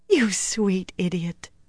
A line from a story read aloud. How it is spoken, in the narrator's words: she laughed softly